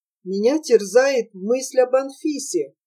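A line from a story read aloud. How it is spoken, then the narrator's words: Timid mumbling. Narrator (Russian): робко стал выборматывать Прохор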